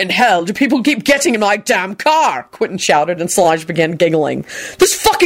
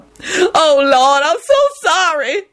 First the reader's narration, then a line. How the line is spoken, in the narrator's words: she sobbed